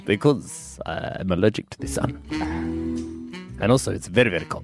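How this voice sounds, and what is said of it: Ambiguous put-on foreign accent, funny voice. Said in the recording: “This accent is ambiguous ... Just a funny voice.”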